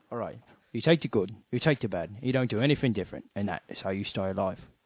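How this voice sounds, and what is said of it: Fairly good English accent impression. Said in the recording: “give me a nice English accent thing. ... That's a bit Michael Caine. ... That is a pretty good Michael Caine. ... That is not bad ... it just slipped at the end ... you get 9 out of 10 for that.”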